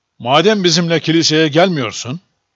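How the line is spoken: Plain. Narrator (Turkish): dedi

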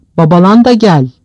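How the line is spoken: Shouting. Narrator (Turkish): diye bağırdı

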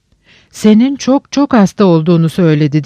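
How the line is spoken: Shouted. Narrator (Turkish): diye haykırdı Lucrezia

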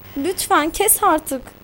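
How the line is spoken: Pleading. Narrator (Turkish): diye yalvardım

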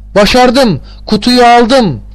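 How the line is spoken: Joyful cry. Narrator (Turkish): diye sevinçle haykırdım

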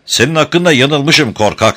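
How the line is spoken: Shouting. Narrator (Turkish): diye bağırdı

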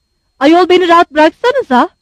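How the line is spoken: Shouting. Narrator (Turkish): diye bağırdı

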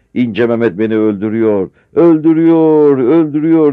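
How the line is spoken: Frantic shouting. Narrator (Turkish): diye bağırarak

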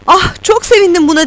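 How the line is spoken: Shouting. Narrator (Turkish): diye bağırdı

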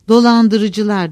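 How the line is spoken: Grumbled. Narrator (Turkish): diye homurdandı

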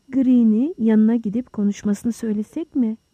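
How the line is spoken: Plain. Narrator (Turkish): dedi Holmes

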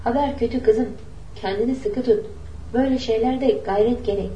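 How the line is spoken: Plain. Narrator (Turkish): dedi

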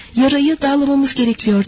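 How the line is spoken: Plain. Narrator (Turkish): dedi hekimbaşı

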